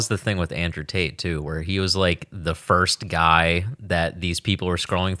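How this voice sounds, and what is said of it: Usual voice. Nothing is said of it.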